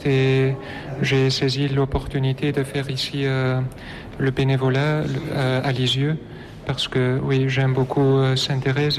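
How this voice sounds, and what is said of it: Slight Flemish accent in French. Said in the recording (French): “Vous avez un léger accent. ... je viens de la Belgique, de la Flandre”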